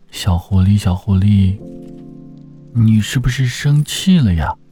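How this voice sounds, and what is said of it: Quiet, soft-spoken question. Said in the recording (Chinese): “小声的问道”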